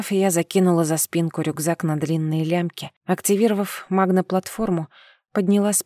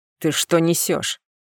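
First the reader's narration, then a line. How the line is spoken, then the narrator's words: Barked. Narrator (Russian): рявкнул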